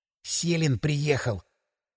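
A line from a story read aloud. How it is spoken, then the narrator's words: Whispered. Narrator (Russian): сообщил Грачев почему-то шепотом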